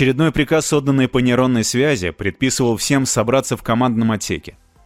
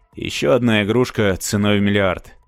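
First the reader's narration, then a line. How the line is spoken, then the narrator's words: Sighing. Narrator (Russian): вздохнул Марк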